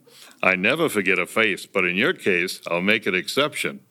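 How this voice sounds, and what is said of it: Imitates another person's voice. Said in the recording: “best impersonation I've ever done ... Groucho Marx”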